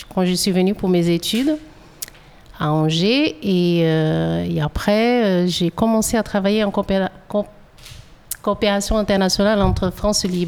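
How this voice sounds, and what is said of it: Slight Brazilian accent in French. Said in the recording (French): “j'entends un petit accent dans votre voix ... je suis originaire du Brésil”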